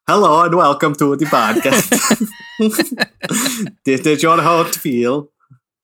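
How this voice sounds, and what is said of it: Bizarre put-on Swedish-like accent. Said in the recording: “You sound so bizarre maybe it's like Swedish. Oh, it's like here to fix your pipe. ... That's good accent.”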